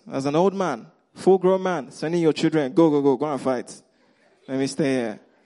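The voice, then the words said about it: Nigerian accent. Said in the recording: “that's my Nigerian accent coming out”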